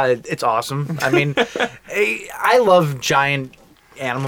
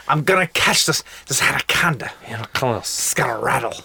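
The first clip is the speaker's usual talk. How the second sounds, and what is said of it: Bad exaggerated snake hunter accent. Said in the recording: “It's bad. It's John Voight's version of Snake Hunters ... Snake Hunters have their own signature accent.”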